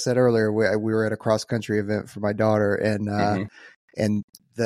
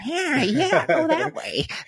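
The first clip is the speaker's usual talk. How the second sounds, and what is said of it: Leprechaun character voice. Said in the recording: “You do a pretty good impression.”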